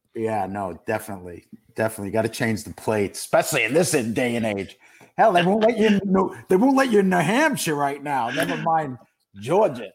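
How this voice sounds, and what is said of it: Brooklyn New York accent. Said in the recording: “Nothing like a Brooklyn Marine on your show... With this accent, they don't even let me in the state.”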